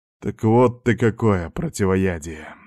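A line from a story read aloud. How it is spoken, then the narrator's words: Thoughtful mutter. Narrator (Russian): задумчиво пробормотал я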